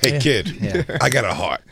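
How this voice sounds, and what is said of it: Put-on Boston accent. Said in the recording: “I love the Boston accent.”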